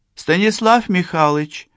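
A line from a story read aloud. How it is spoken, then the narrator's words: Gentle call, nurse. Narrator (Russian): ласково окликнула его сиделка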